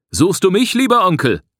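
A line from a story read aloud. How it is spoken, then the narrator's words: Asked loudly. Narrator (German): fragte er laut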